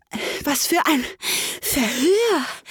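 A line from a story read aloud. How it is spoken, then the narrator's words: Panting while running. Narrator (German): keuchte Alice beim Rennen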